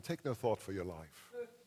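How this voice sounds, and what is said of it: Put-on British accent. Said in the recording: “He comes to us with the British accent”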